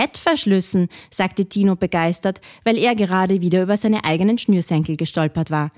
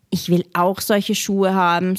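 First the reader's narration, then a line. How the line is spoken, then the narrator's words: Sighing. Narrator (German): seufzte Robert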